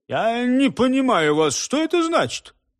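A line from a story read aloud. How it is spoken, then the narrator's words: Babbled reply. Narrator (Russian): Лицо его побагровело, и он пролепетал в ответ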